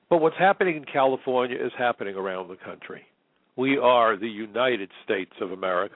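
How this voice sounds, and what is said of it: New York Brooklyn accent. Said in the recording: “I'm a New Yorker. If you can't tell by my accent, I even went to Brooklyn College. You can't be more Brooklyn or New York than that.”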